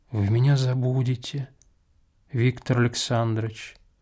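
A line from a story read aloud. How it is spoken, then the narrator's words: Sad. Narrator (Russian): печально промолвила Акулина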